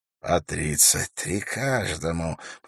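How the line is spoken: Relishing whisper. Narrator (Russian): прошептал вождь туалагов, наслаждаясь этими цифрами

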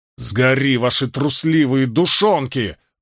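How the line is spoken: Roaring. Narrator (Russian): взревел Мэтт

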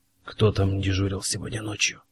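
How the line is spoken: Whispered question. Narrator (Russian): шепотом спросил Фит-Джеймс

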